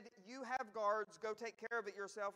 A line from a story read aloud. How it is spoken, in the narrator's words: he said